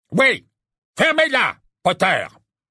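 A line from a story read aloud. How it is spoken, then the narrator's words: Barking. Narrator (French): aboya Fudge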